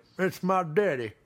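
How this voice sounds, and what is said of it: Imitation in a Southern accent. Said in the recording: “do a Donald Trump impression. I just did it with a Southern accent. He doesn't have a Southern accent.”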